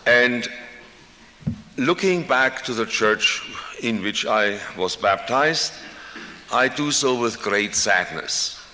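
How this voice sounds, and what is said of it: European-born speaker's foreign accent. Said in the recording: “You probably recognized from my accent that I was born on the wrong side of the Atlantic.”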